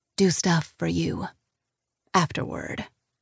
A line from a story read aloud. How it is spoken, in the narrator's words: I murmur